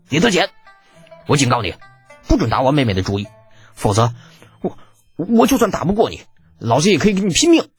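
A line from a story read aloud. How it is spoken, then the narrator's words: Stern, harsh voice. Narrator (Chinese): 宇文某厉声道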